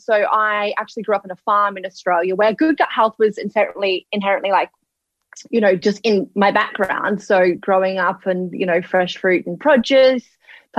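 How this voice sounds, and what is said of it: Australian accent. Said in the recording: “you guys probably picked up on the Australian accent”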